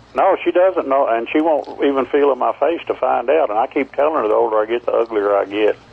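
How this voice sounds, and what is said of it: Speaks with a noticeable accent. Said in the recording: “don't ever lose that accent”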